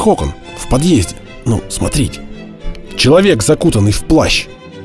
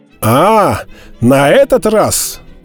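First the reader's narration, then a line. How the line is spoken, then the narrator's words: Exclamation. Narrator (Russian): воскликнул Д'Артаньян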